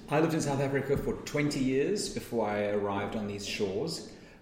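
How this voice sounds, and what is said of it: South African (Cape Town) accent. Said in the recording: “has an accent which comes from being born and raised in Cape Town, South Africa”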